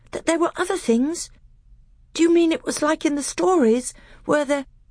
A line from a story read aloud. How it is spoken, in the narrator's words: he gasped